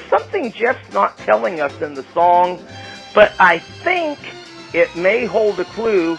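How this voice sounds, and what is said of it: Usual voice. Nothing is said of it.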